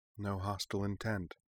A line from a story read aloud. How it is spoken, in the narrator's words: Sonya murmured